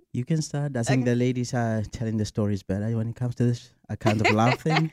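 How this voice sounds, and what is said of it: South African accent. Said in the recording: “you're gonna want to hear that South African accent.”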